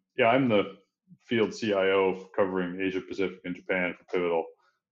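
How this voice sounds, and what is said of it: Slight Canadian accent. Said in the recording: “my accent does have that Canadian tinge to it”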